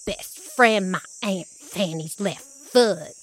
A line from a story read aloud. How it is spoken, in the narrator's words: she muttered